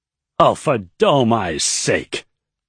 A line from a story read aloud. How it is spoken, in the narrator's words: Iodine bellowed